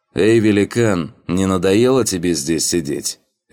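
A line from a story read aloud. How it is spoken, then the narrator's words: Cheerful, chuckling. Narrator (Russian): Весело выдал тот и сам же хохотнул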